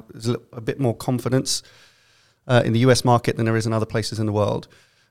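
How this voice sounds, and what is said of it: London accent. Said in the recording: “my best London accent”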